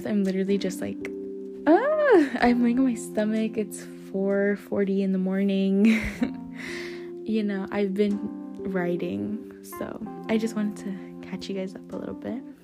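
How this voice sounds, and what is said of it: Breathless, out-of-breath speech. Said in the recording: “sorry if I sound out of breath.”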